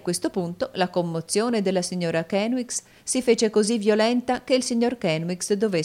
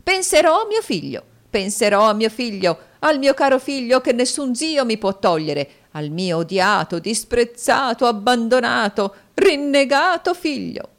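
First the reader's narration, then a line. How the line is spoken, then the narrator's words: Woman shrieking. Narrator (Italian): strillò la signora Kenwigs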